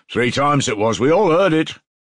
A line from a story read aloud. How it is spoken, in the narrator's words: shouted a third